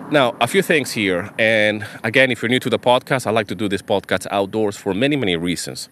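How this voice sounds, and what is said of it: Nasal, congested voice. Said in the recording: “allergy kind of like hay fever sinus thing ... my voice might sound a little bit weird, nasal ... now it sounds a little bit worse today. It sounds much, much worse.”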